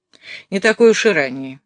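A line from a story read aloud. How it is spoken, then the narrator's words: Angry remark. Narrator (Russian): сердито заметила Офра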